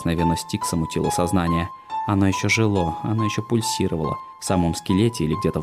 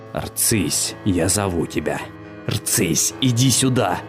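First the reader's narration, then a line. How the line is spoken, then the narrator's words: Menacing whisper, man. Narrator (Russian): Грозно прошептал дважды обманутый и дважды убитый мужчина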